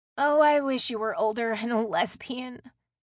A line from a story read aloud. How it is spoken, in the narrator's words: Haley said with a laugh